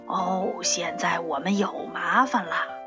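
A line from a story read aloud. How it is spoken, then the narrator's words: Sighing. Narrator (Chinese): 十六路公交车叹了一口气说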